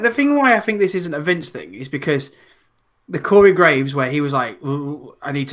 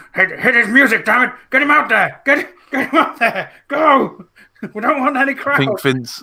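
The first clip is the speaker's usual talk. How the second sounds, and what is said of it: Imitates another person's voice. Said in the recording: “my Vince McMahon impression”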